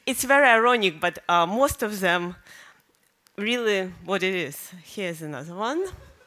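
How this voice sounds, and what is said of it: Foreign accent. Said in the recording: “Don't be shy about speaking with an accent. Americans think foreign accents are sexy ... I'm embarrassed of my accent, that is still here”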